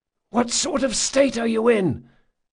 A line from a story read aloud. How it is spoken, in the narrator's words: Carlo whispered